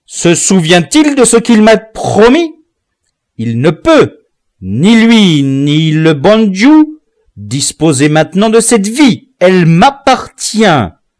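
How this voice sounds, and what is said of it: Angry, irritated voice. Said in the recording (French): “voix avec colère ... à cet accent irrité”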